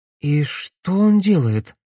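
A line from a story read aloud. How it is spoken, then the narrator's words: Anxious question. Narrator (Russian): взволнованно спросила Камилла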